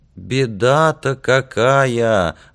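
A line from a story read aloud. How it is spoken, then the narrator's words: Loud sincere gasping aunt. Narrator (Russian): ахала тетка чересчур громко, но, видимо, искренне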